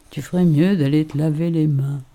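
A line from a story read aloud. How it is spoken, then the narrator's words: Sleepy voice. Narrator (French): Il m'a dit d'une voix ensommeillée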